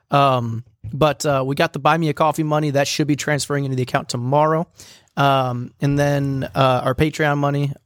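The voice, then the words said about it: Slightly raspy voice. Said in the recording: “my voice is a little raspy today. I'm recovering from illness.”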